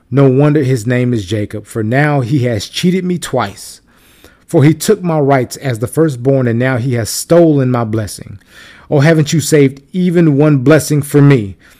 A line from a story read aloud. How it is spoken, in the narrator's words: Esau exclaimed